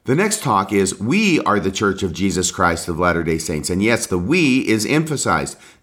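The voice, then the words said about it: Hoarse voice. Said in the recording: “my voice probably sounds funny... managed to make myself somewhat hoarse... my voice may sound a little bit funny”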